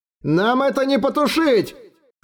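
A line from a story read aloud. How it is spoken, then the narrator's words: Panicked sailor's yell. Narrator (Russian): В панике заорал кто-то из матросов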